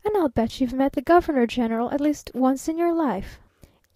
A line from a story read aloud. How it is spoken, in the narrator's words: laughed the youngish girl